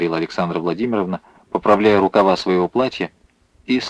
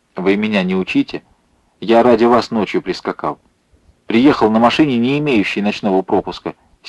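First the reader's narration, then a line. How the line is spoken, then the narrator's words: Angry shout. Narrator (Russian): сердито крикнул он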